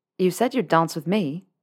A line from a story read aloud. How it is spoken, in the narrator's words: said the Ravenclaw